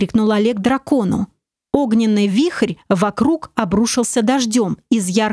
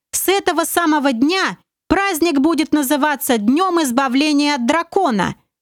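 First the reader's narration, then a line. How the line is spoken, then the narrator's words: Shouting at full strength, commander. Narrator (Russian): что было мочи, заорал командор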